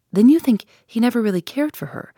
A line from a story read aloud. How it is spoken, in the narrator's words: I asked eagerly, rather too eagerly, perhaps, under the circumstances